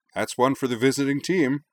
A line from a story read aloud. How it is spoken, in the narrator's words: Wakaba Shinohara declared cheerfully